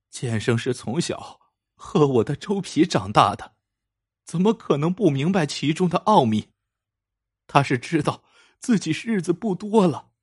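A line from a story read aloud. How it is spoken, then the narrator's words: Crying. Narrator (Chinese): 江娘哭着说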